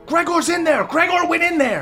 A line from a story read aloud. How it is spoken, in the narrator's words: a few people are yelling